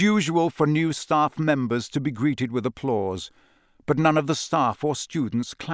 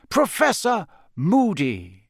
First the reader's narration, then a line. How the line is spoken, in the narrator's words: said Dumbledore brightly into the silence